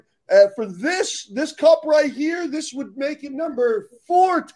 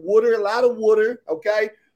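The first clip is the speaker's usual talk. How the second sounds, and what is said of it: Thick East Coast accent imitation. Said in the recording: “with her thick East Coast accent”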